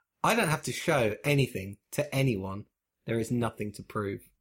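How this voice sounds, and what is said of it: Arrogant-sounding delivery. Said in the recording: “Just the arrogance in your voice there”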